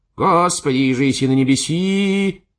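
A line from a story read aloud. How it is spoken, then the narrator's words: Shrill shout. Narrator (Russian): закричал таким тонким голосом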